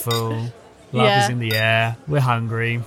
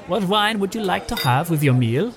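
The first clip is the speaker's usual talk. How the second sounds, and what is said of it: Poor put-on Swedish accent. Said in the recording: “And now I'm sounding like Borat... No, you sound like you're from Holland or something... No, Swedish... You sound like Phoebe on Friends when she's giving the massage... I don't think you should do accents. You're not very good at them.”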